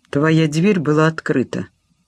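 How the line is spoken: Dry. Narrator (Russian): сухо пояснил Ястребов

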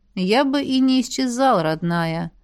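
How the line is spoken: Purring dragon. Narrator (Russian): мурлыкнул дракон

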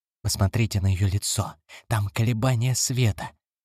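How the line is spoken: Whispered. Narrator (Russian): Крафт шептал

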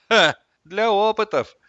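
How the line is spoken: Grim distant laugh. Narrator (Russian): мрачно хохотнул кто-то в отдалении

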